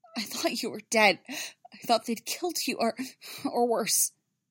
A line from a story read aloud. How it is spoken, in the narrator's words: Amidala say, her voice choked with emotion